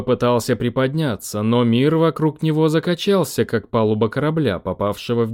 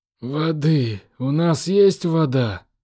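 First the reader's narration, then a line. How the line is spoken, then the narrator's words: Hoarse, exhausted. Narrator (Russian): Прохрипел он, чувствуя, что не выдержит еще одной штормовой волны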